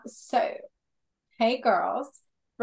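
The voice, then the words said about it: Put-on accent saying hey girls. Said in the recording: “I don't know why I put an accent when I say girl. ... Oh, it sounds weird in English.”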